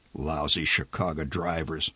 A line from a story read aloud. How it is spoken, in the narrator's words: The old man muttered